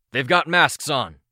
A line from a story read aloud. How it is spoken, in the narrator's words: Balk called out